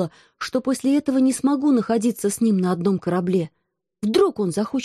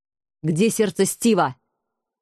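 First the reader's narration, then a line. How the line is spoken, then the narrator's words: Menacing question. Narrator (Russian): грозно спросил Алекс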